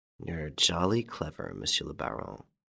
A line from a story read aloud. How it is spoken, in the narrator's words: He muttered